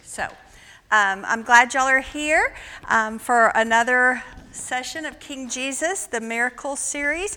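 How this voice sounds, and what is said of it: Loud, projected teacher voice. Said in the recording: “Y'all are going to have to get my teacher voice tonight because there's not amplification.”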